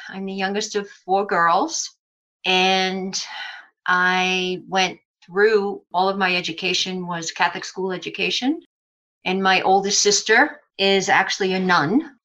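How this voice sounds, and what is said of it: New York Brooklyn accent. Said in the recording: “I am a native New Yorker. You will hear that accent come out depending on what words I say, or it might be through the whole conversation. I grew up in Brooklyn, New York.”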